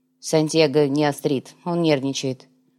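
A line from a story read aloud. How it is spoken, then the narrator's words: Grumbling knight. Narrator (Russian): проворчал рыцарь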